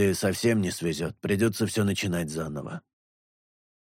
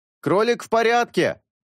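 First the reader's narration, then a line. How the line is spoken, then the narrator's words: Shout. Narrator (Russian): крикнул он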